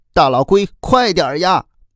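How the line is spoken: Children shouting desperately. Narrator (Chinese): 孩子们拼命的叫喊着

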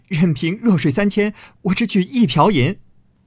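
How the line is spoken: Sudden laughter. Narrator (Chinese): 宝玉忽然大笑道

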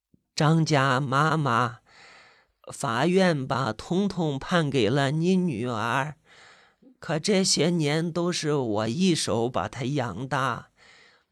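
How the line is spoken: Low voice, smiling. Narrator (Chinese): 金老太带着笑，低声的说着

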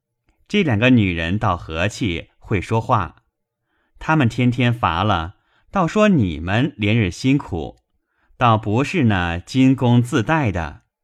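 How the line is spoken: Laughing. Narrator (Chinese): 宝玉笑道

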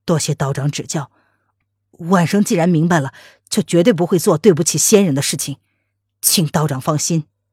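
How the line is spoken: Through gritted teeth. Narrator (Chinese): 沈轩咬了咬牙，他说

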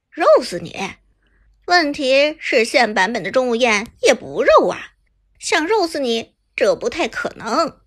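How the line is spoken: Sneering. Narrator (Chinese): 旁边 AY 的辅助冷笑道

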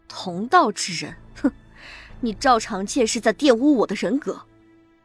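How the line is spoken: Cold sneer. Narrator (Chinese): 吴秀军冷笑

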